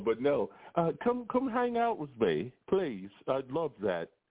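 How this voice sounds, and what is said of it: Poor put-on British accent. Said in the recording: “my poor attempt at a British accent”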